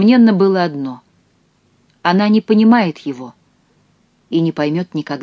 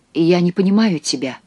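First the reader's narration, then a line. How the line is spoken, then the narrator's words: Muttered. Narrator (Russian): пробормотала она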